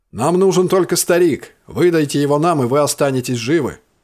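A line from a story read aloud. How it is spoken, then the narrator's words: Shouting from another room. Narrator (Russian): крикнули из комнаты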